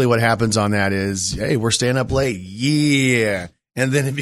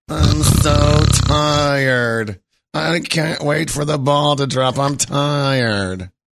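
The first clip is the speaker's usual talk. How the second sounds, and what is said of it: Imitating a child's tired whining. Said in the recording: “Are you imitating your son?”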